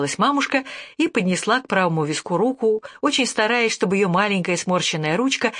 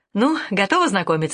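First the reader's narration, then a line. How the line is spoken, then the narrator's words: Very cheerful question. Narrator (Russian): спросила я предельно бодро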